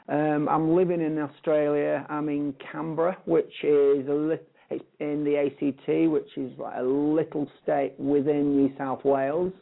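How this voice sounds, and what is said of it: British English accent. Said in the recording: “obviously from the accent, people can sort of detect that I am actually a palm. I'm actually from the UK.”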